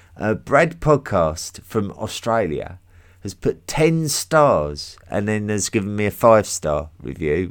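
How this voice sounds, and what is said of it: English accent, sounds sarcastic. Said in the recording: “my English accent just makes me sound like I'm being sarcastic the whole time”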